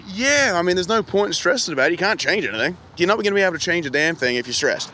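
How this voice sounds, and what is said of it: Australian accent. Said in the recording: “this Australian accent”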